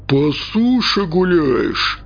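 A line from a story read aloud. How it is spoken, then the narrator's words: Menacing question. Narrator (Russian): грозно вопросил он, глядя сверху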